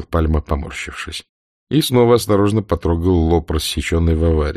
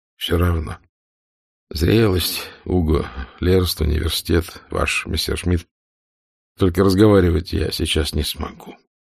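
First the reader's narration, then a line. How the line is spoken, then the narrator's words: Quiet. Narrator (Russian): тихо сказал Пальма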